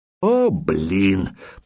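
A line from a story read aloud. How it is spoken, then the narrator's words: Grumbled. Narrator (Russian): проворчал Хиля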